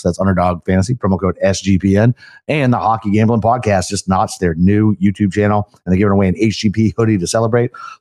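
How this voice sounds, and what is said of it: Raspy, hoarse voice. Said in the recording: “raspy my voice sounds. It's going to sound terrible. ... It is a little bit, man.”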